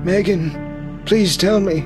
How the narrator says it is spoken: Rizzo croaked

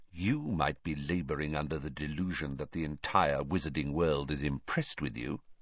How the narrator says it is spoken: Snape went on, so quietly that no one else could hear him

